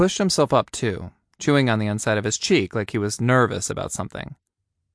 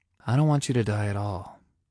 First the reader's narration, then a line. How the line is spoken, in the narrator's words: Ryan said quietly